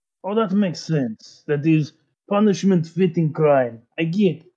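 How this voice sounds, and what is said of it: Put-on Russian accent. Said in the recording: “despite my Russian accent”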